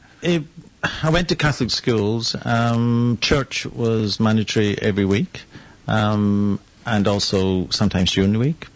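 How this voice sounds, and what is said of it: Scottish accent. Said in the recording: “another Scot ... They just like the accent”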